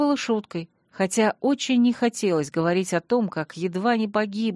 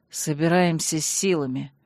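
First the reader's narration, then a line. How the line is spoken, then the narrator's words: Curt grumble. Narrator (Russian): скупо буркнул Танрад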